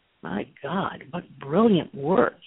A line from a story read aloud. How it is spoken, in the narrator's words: he muttered